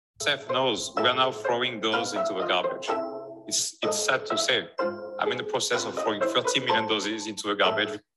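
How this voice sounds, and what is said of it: Speaks English with an accent. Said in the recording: “he's got an accent, so let me translate real quick”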